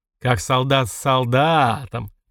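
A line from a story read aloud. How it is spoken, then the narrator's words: Thoughtful grumble. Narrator (Russian): капитан задумчиво проворчал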